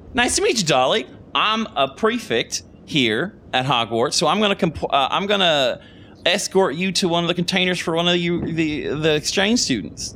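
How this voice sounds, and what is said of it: Put-on American Southern accent. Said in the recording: “Oh, I did a Southern accent”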